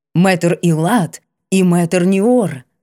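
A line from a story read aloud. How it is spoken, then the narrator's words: Solemn announcement. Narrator (Russian): торжественно провозгласил он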